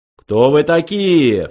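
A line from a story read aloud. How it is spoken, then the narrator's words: Menacing question. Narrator (Russian): грозно спросил Ланквилл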